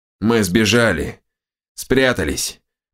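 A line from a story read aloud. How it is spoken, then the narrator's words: Creaky. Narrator (Russian): проскрипела правая голова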